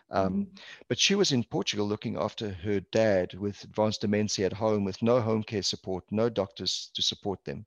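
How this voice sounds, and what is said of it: South African Portuguese accent. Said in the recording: “Portuguese background, Portuguese culture, born and raised in South Africa, hence the accent”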